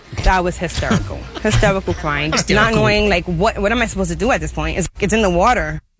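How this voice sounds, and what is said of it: Woman speaking with an appealing accent. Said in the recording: “her sexy accent”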